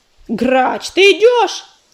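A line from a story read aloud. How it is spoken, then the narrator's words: Yelling again. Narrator (Russian): снова завопил паутинник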